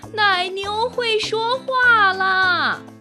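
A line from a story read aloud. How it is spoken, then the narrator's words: Shouting while running. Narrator (Chinese): 一边跑，一边喊道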